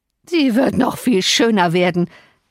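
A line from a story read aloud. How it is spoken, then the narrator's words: Depraved man's wild laughing speech. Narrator (German): lachte der verkommene Mann, schon wieder in seiner tollen Art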